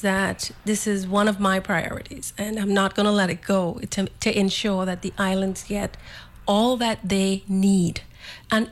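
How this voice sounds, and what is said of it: Caribbean island accent. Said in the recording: “you hear my accent. So I'm an islander”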